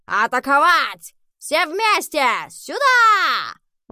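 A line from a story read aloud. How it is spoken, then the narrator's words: Shout. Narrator (Russian): Фергус пришел в себя и крикнул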